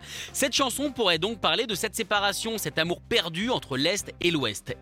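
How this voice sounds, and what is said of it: Strong German accent in French. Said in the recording (French): “j'ai un terrible accent allemand”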